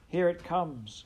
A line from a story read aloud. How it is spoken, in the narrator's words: cried a nearby clover plant